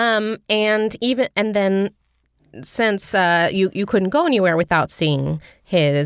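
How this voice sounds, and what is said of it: Usual voice. Nothing is said of it.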